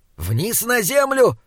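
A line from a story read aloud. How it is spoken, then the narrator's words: Troll shouting. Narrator (Russian): кричал тролль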